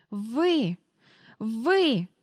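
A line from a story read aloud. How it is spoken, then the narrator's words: Stammering, wheezing. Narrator (Ukrainian): заникуючись, хрипіла міс Ендрю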